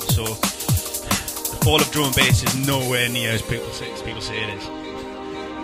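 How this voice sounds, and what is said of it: Geordie accent. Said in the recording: “sound really Geordie ... I sound really Geordie on the radio”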